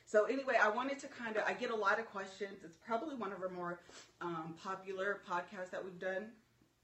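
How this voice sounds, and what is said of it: Shaky, nervous voice. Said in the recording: “I know I'm so nervous. My voice is shaky.”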